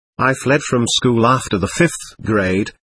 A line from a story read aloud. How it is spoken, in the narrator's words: he said, laughing